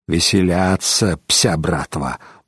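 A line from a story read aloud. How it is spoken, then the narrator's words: Grumbled. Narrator (Russian): буркнул Тассило де Тресков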